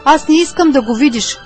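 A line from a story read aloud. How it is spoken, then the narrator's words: Man shouting. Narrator (Bulgarian): извика мъжът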